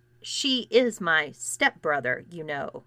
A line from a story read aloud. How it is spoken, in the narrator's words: growled Alexis very slowly